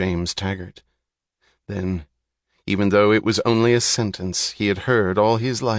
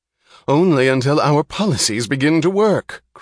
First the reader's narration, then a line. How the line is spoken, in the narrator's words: cried Dr